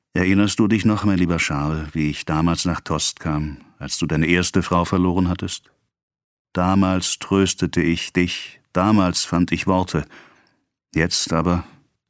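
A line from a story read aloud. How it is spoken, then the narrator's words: Sighing. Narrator (German): sagte Vater Rouault mit einem Seufzer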